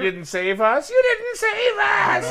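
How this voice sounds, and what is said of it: Imitates another person's voice. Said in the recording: “That's my Deborah Jo Ruff impression.”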